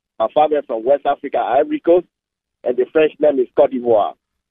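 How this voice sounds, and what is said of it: French-speaking West African accent. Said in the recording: “through my accent, you will know that I'm not Native American. I'm speaking French.”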